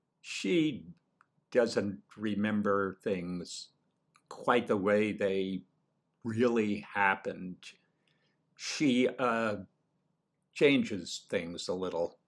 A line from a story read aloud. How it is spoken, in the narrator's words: he said, speaking as slowly as great-grandmother herself, picking each word carefully